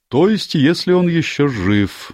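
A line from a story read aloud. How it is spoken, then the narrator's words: Gloomy. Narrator (Russian): мрачно добавил высокий детектив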